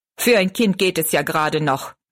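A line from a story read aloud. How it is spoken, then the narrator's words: Angry. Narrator (German): meinte er zornig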